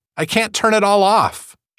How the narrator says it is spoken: she cried

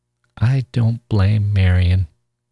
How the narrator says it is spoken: Charlie said slowly

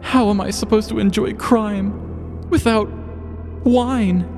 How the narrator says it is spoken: Gabriel wailed to himself

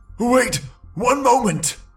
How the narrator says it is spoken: gasped the brigand painfully

